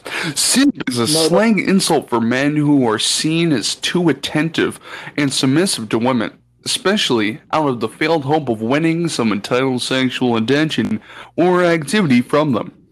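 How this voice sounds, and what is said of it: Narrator voice. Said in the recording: “Let me get my narrator voice.”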